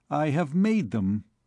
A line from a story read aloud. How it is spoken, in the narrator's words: said the hosier